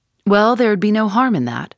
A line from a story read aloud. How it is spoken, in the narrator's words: McMurdo answered